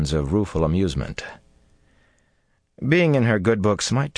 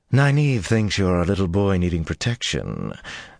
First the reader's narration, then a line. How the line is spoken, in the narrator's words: Tylan breathed